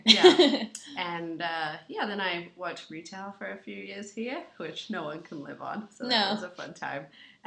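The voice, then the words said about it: Slight English accent. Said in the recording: “I have a bit of an accent because I'm from England originally”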